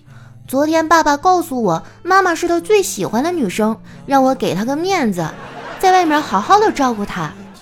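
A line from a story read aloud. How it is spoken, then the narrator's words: Loud child. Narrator (Chinese): 这小家伙大声地说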